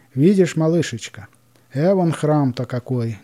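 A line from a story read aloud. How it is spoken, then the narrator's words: Plain. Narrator (Russian): говорит Акулина Ивановна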